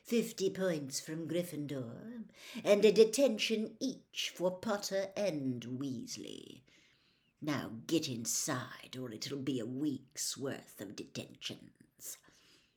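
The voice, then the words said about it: Silky Snape character voice. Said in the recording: “in his silkiest voice”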